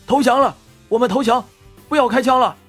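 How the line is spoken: Distant desperate shouting. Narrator (Chinese): 剩下的海盗这时却躲在石头后面大喊

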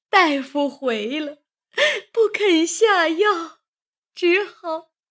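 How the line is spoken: Crying, tearful. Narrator (Chinese): 王夫人一面哭着，一面告诉贾政说

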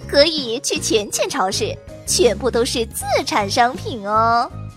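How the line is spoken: Smiling. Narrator (Chinese): 屁屁秘书眉眼一笑

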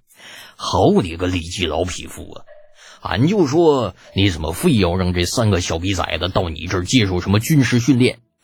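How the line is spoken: Chuckling. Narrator (Chinese): 程咬金更是嘿嘿一笑

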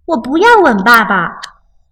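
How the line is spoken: Child crying out. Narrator (Chinese): 熊宝宝叫道

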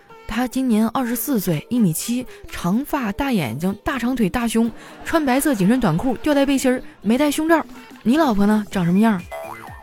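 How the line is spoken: Plain old man. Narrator (Chinese): 老头说

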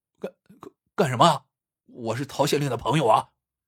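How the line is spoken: Anxious stammering. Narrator (Chinese): 他急了， 结结巴巴道

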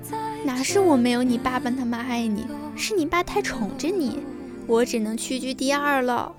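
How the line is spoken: Laughing scold. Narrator (Chinese): 我妈笑骂

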